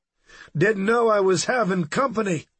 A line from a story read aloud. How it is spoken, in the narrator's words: he called out